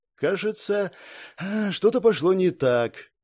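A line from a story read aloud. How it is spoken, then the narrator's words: Sighing. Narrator (Russian): вздохнул Шон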